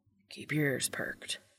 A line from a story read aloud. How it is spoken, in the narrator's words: Dean whispers